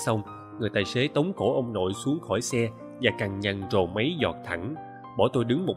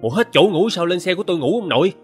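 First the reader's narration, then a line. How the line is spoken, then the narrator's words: Terrified turning angry. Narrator (Vietnamese): người tài xế chuyển từ kinh hoàng sang giận dữ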